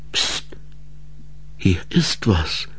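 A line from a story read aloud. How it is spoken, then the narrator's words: Whispered as quietly as possible. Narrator (German): Ensel flüsterte so leise wie möglich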